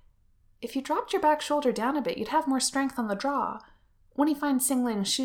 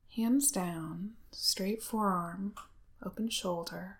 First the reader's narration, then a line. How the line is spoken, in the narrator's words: he says softly